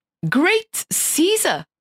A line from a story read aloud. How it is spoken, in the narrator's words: he exclaimed